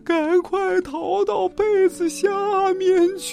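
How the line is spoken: Tearful shouting crowd. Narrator (Chinese): 一群人带着哭腔喊

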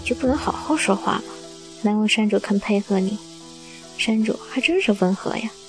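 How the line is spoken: Inner mutter. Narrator (Chinese): 百灵在心里嘀咕着

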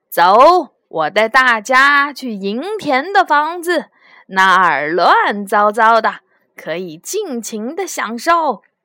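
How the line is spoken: Loud shouting. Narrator (Chinese): 涂完 大声的喊道

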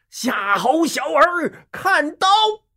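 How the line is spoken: Thunderous roar. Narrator (Chinese): 晴天霹雳一声吼

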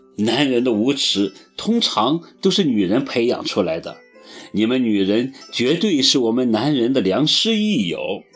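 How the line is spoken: Laughing scolding. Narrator (Chinese): 罗罗笑着骂

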